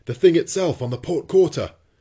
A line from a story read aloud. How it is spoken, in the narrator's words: cried the harpooner